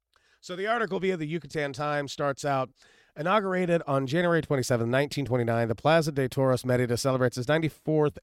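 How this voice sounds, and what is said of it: Hoarse, strained voice. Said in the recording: “my voice is not 100%, by it's not even 10% ... my voice is absolutely shot”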